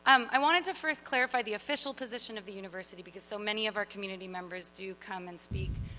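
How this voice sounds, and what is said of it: Slightly sore, hoarse voice. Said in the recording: “My voice is a little sore. It's actually because of a cold”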